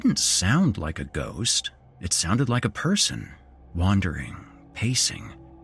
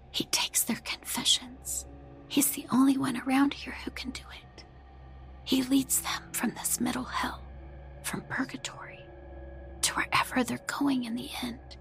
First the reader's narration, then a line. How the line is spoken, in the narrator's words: Hannah whispered